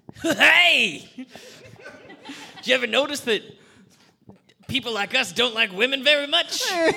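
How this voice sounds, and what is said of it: Morning radio DJ voice. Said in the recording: “my drive time morning DJ voice”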